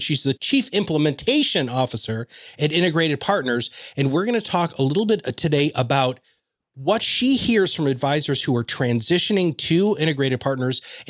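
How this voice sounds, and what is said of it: Over-the-top podcast voice, heavy enunciation. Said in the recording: “I'm loving your podcast voice ... it's a little over the top ... I probably do have a little bit more enunciation”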